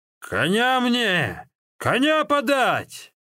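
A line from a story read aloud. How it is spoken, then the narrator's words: Terrified shouting. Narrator (Russian): он перепугался не на шутку, не смог выдавить из себя ни одного слова и только кричал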